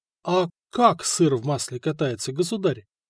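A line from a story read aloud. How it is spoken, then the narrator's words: Timid question. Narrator (Russian): робко спросил мастер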